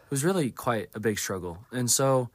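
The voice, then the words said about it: Hoarse, strained voice, throat clearing. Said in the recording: “I completely lost my voice this Sunday, and I'm still in recovery from that ... If I'm clearing my throat or if I just sound kind of bad in general, that's why”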